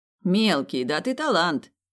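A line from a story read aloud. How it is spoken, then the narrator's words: Amused snort. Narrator (Russian): весело хмыкнул Этан, будто развлекался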